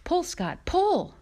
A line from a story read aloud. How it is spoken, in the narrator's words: Paw yelled